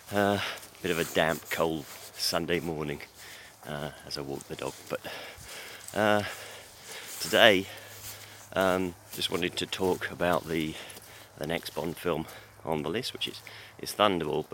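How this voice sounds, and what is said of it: Hoarse, strained voice. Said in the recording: “my throat's gone again, so you'll have to excuse my voice.”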